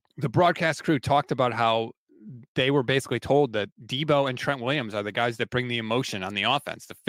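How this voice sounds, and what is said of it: Hoarse voice. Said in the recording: “my voice is getting hoarse.”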